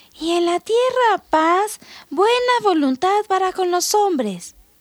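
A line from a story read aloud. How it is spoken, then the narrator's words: Soft repetition. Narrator (Spanish): repitió suavemente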